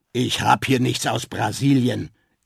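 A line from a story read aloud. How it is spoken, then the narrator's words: Gruff reply. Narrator (German): entgegnete der Verkäufer barsch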